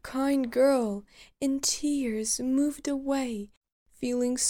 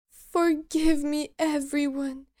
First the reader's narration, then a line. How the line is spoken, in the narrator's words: exclaimed, and her tears turned to joyful laughter